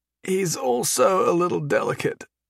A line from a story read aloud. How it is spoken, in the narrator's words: Jason croaked